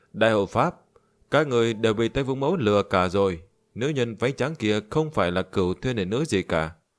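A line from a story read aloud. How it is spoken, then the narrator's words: Loud laughing speech. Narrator (Vietnamese): Diệp Duy Thu cười lớn nói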